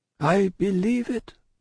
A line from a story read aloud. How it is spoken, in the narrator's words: answered her father mournfully